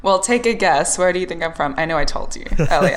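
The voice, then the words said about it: Faded Australian accent. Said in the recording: “You obviously aren't from the United States. I can tell by your accent ... Australia ... my accent is very faded at this point ... It's the so and the no ... It's on the O things”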